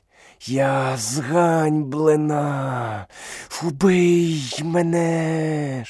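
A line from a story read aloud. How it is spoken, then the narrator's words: Hissing snake. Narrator (Ukrainian): шипіла кобра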